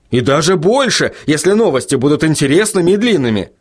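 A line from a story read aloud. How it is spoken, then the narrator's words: Fervent exclamation. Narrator (Russian): с жаром воскликнул Вильям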